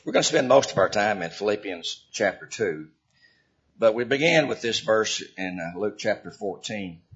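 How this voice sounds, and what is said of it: Slightly hoarse voice. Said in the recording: “You might hear my voice is a little hoarse this morning. ... I'm a little bit hoarse this morning”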